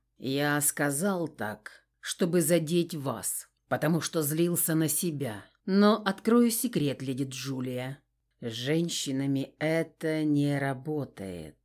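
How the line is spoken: Velvety voice. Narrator (Russian): произнес Кристиан бархатным голосом

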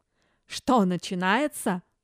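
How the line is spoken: Snorting. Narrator (Russian): фыркнул ненавистный опекун

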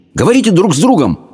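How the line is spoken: Barking shout. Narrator (Russian): рявкнул Абдулла

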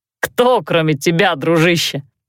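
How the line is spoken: Chuckling. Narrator (Russian): хохотнул Мартен

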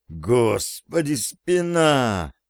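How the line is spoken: Groaning in pain. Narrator (Russian): простонал я

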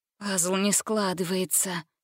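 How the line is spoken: Muttering under her breath. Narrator (Russian): бормотала себе под нос Гретель

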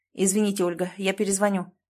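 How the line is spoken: Sharp. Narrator (Russian): резко сказал Клим

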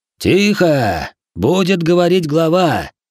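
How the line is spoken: Booming herald's voice. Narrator (Russian): Прогремел голос глашатая

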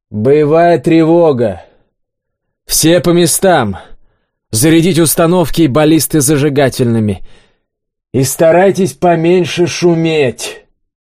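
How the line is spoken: Loud announcement. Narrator (Russian): Олег громко заявил

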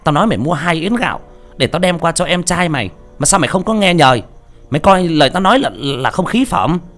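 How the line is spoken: Shrill hissing scold. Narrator (Vietnamese): Mụ Diễm rít lên

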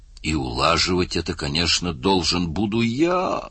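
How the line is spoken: Groaning. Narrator (Russian): простонал Мерс

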